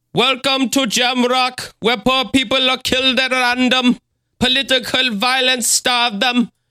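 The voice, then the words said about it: Put-on Jamaican accent. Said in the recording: “your Jamaican impression is way better than anything I would try to do”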